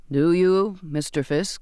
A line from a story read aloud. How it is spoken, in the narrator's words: the captain intoned